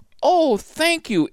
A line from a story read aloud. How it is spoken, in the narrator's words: Ariel cried happily